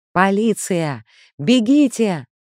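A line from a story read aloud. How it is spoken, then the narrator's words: Shouted, female. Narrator (Russian): закричала она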